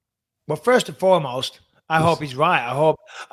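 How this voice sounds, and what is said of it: Usual voice. Nothing is said of it.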